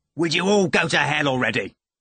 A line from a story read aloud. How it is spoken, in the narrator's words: Ivan shouted rudely